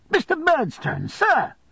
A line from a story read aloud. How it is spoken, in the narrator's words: I cried to him